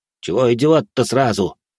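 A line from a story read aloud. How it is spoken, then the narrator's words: Grumbling. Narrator (Russian): проворчал Баженов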